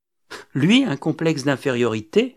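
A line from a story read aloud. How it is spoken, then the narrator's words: Bitter sneering laugh. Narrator (French): ricana Marie-Josée, en laissant paraître sur son visage un rictus amer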